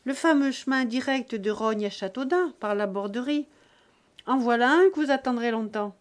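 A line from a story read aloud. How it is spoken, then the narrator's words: Shouting. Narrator (French): cria Buteau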